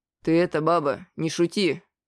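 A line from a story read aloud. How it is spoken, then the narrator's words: Stern. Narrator (Russian): строго сказал купец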